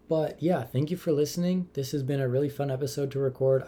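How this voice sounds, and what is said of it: Tired, flat, low-energy voice. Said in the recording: “my voice is a little bit boring right now. It's 11:15 p.m. and I normally go to bed at like 10:30”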